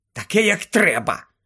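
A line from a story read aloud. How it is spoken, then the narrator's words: Angry snap. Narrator (Ukrainian): сердито огризнулася Герміона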